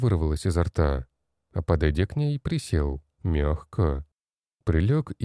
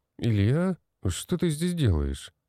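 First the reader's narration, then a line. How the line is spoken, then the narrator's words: Sleepy questioning voice. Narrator (Russian): сонным голосом спросил я у бородатого коротышки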